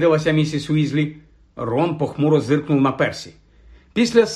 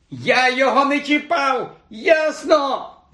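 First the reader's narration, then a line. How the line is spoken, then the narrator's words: Screeching in reply. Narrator (Ukrainian): верещав у відповідь йому Рон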